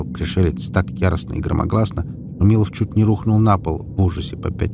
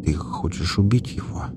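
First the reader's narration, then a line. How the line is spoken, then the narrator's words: Barely audible. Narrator (Russian): едва слышно проговорил Милов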